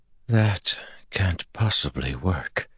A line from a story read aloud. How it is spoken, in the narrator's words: Pevara sent drowsily